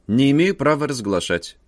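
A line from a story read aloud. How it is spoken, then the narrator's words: Dry reply. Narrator (Russian): сухо ответил художник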